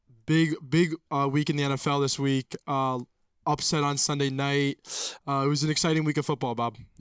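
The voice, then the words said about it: Raspy, congested voice. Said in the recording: “my voice a little raspy or a little congested. I'm a little under the weather”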